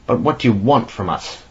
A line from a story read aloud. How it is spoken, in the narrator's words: He exclaimed in a deadened voice